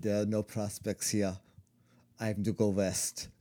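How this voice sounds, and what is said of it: Put-on German accent. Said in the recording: “Your German accent is great.”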